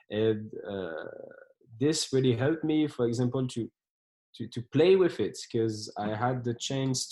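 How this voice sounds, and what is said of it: Mixed French, African, American accent. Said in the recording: “my accent is not that good. I have like this French, African, American accent, which is hard to explain and hard to understand”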